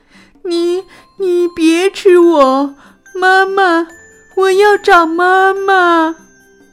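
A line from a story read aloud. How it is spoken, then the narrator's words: Terrified child crying. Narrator (Chinese): 皮皮吓坏了，哭着说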